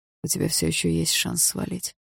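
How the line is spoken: Hoarse voice. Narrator (Russian): хрипло продолжал Барс

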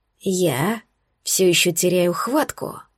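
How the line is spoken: Hoarse breathy rasp. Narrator (Russian): прохрипел Алекс и выдохнул мне в висок

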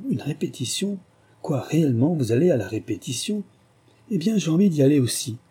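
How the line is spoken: Immediate exclamation. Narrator (French): Il s'écria, sur le champ

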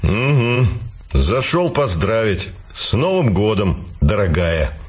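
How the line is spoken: Snorting. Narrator (Russian): хмыкнул он

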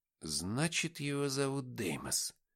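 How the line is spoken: Muttered. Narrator (Russian): пробормотал Никита

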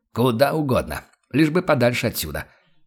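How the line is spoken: Irritated snap. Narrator (Russian): раздраженно огрызнулся Штайгер

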